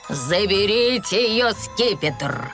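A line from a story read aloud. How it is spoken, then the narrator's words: Growl. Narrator (Russian): прорычал желтый главарь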